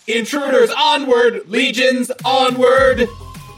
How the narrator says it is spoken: it kind of yells out

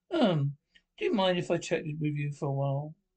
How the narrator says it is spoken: asks her tenderly

